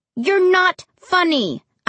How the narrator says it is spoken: I said angrily

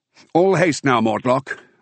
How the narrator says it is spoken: I continued, raising my voice spiritedly

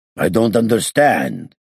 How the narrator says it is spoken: said sternly

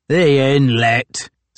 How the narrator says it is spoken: sneered a seaman named George Thompson

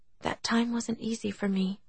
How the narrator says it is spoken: she said softly

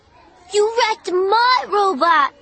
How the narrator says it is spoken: Colin cried

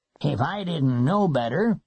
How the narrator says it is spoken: he would mutter

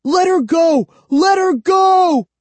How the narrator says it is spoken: I screamed

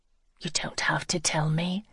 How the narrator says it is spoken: she whispered

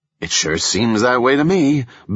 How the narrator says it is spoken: Beau said sarcastically

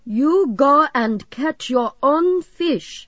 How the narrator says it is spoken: Carl shouted

